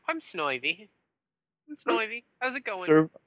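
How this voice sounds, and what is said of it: Cartoonish character voice, poorly done. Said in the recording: “I can't actually do the accent very well”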